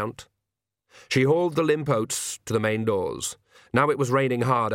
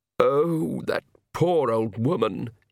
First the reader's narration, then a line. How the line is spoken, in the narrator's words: he moaned